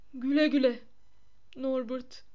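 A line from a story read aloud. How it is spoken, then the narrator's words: Sobbing. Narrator (Turkish): diye hıçkırdı Hagrid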